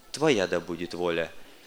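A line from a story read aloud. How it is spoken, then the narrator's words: Soft, quiet. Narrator (Russian): тихонько произнес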